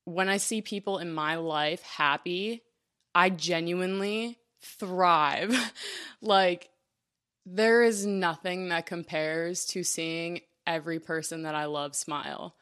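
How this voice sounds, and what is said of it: Emotional, moved voice. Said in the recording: “Sorry, I'm getting emotional”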